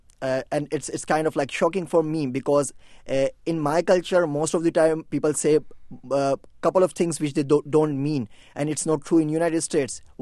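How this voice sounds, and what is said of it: British-influenced non-native English accent. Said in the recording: “people can tell a bit from your accent that you grew up learning British English and not American English”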